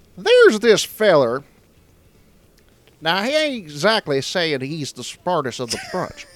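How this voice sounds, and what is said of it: Put-on Southern US accent. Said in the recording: “How do you do your southern accent? ... talk like this”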